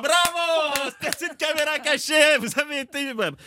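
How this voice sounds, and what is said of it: Put-on Québécois French accent. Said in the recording (French): “il a l'accent de Madrid ... c'est l'accent québécois ... c'est du québécois”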